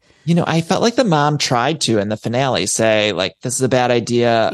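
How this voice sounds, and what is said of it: Midwest American accent. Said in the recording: “I can hear your Midwest accent”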